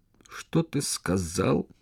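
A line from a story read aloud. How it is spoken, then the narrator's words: Hoarse wheeze. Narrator (Russian): прохрипел Сула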